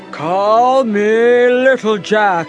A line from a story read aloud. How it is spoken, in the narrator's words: he roared